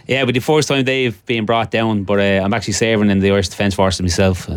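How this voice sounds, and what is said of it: Irish Dublin accent. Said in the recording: “that's not a Gisala or an Eris accent ... No, I'm originally from Dublin.”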